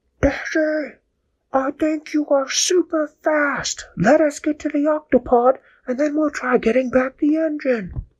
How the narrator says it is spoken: Captain Barnacle yelled back and said

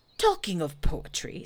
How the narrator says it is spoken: said Pooh quickly

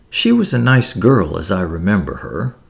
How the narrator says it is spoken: murmured Lady Tamplin, pursuing her own line of thought

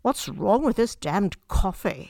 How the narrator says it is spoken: he growled

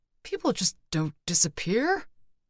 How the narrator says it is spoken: Brick muttered

